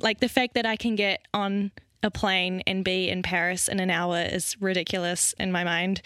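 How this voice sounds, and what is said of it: New Zealand accent. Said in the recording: “my crazy accent is from... what is that wacko accent that she has?... It's not Australia. It's New Zealand.”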